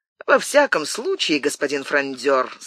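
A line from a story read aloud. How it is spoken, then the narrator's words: Cheerful. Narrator (Russian): сказал Мазарини весело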